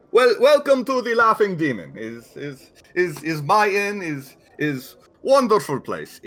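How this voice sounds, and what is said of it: Vaguely Russian put-on accent. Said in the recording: “Russian accent ... It is definitely foreign. It is not an Ustalavian accent. ... I am using a vaguely Russian accent”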